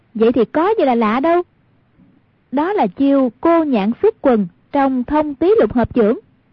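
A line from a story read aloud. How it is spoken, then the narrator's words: Exclaiming. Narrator (Vietnamese): Hoàng Dung kêu lên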